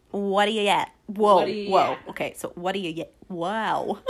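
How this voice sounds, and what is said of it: Newfoundland accent. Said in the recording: “read off some Newfoundland sayings for you. This is clearly to get my accent out here.”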